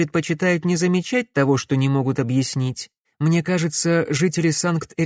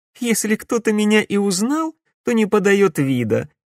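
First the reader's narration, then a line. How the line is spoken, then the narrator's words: Laughing. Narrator (Russian): рассмеялась Катерина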